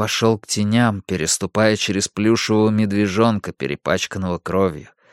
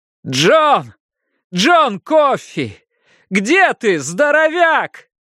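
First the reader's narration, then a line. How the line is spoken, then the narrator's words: Calling shout. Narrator (Russian): прокричал теням под мостом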